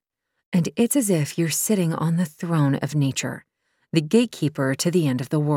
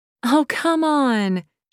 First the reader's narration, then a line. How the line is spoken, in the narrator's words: she pleaded